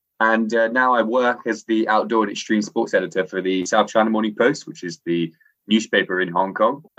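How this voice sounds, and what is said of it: English-sounding accent. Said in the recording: “Despite my accent, I sound English.”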